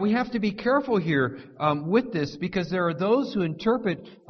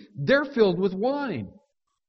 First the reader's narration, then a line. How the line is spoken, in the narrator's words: mock the disciples, exclaiming, accusing